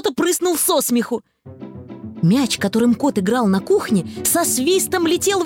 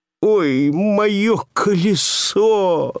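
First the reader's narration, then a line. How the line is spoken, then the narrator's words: Whimpering. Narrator (Russian): захныкал Пэтсон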